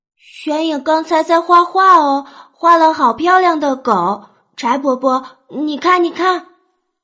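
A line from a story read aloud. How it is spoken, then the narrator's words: Raised excited child voice. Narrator (Chinese): 娄玄影，声音也拔高了几分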